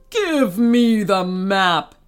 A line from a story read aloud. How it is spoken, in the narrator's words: he bellowed